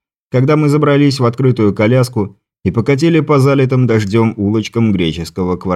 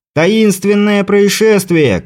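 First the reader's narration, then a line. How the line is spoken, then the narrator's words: Shouting over crowd. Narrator (Russian): кричал, перекрывая гомон людей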